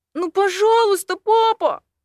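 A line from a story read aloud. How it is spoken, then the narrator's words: Pleading. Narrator (Russian): взмолился Эймос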